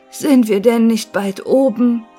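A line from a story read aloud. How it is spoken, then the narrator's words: Scattered sighing voices. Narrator (German): seufzte bald hier, bald dort einer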